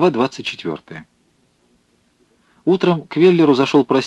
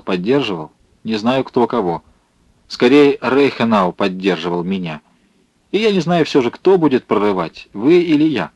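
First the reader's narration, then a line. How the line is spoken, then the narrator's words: Rough reply. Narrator (Russian): Рихтгоффен грубо ответил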